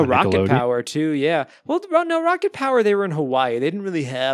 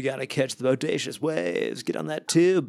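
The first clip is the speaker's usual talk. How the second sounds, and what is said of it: Surfer dude accent. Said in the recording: “the whole like surfer dude vibe ... That was a good accent.”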